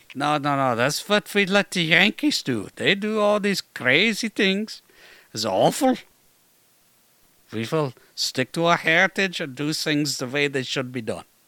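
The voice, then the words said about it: Put-on accent. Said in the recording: “Excellent accent.”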